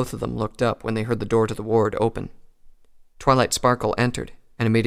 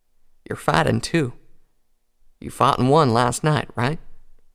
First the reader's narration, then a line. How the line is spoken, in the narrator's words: choked back a sob